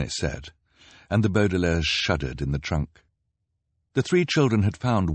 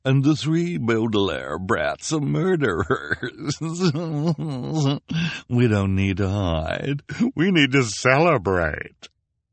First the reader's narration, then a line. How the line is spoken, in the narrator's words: Esme said with a nasty chuckle